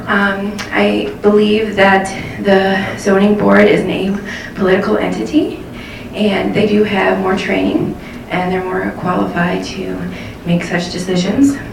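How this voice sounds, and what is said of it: Out of breath speaking. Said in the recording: “I'm out of breath because I ran here.”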